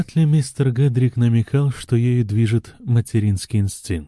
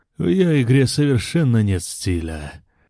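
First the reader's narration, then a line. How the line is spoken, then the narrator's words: Objected gloomily. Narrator (Russian): мрачно возразил мистер Гедрик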